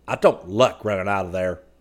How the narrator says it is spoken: Scotty said hotly

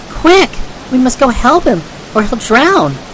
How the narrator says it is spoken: Trot exclaimed

